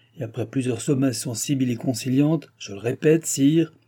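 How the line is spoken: King grumbling. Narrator (French): grommela le roi

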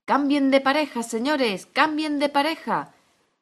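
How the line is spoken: Wild shouting. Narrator (Spanish): gritaba desaforado el grifo

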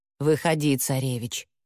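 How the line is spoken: Calm remark. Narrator (Russian): спокойно обронила Яга

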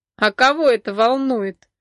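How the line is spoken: Laughing blond man. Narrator (Russian): засмеялся блондин

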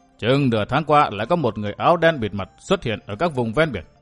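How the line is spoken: Stern old man. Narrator (Vietnamese): Lão nhân áo xám nghiêm giọng

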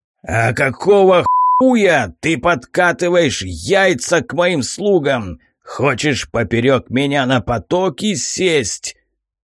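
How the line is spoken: Growled. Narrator (Russian): прорычал я

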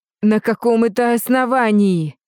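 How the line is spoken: Growled. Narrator (Russian): прорычала

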